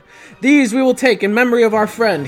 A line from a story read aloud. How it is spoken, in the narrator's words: he cried